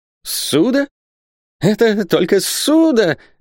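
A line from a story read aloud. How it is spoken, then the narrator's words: Joyful exclamation. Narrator (Russian): воскликнул Исаак Хакабут, и лицо его сразу просияло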